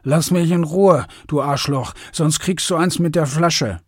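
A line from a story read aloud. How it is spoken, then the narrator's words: Slurred drunken speech. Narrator (German): lallte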